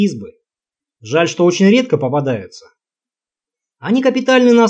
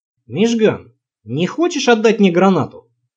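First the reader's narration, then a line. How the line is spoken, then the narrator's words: Innocent-sounding question. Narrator (Russian): спросил самым невинным голосом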